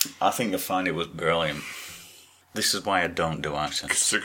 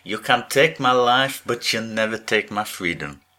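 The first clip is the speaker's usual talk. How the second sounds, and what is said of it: Poor attempt at Scottish accent. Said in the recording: “do your Scottish accent ... That was French. Was that French? ... It was like not an accent and an accent. It was like a quantum accent”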